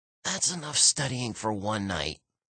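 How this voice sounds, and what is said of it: Croaky whisper. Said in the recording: “I whispered in a croaky voice.”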